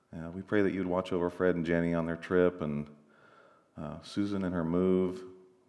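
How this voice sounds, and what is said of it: Congested, stuffy voice. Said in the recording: “I've got a cold here. I sound a little bit like Barry Manilow. A little bit.”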